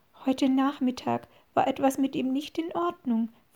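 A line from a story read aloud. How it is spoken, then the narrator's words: Whispering. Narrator (German): flüsterte Susan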